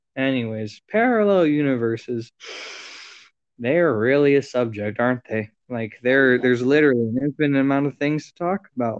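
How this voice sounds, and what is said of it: Flat monotone delivery. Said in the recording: “you sound like you just read an entire, like, ... I'm sorry if I'm very monotone”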